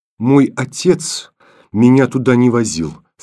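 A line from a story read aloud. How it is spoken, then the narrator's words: Trembling voice. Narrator (Russian): сказала Таня дрожащим голосом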